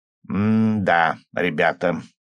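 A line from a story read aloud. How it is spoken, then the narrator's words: Drawn-out drawl. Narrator (Russian): наконец протянул он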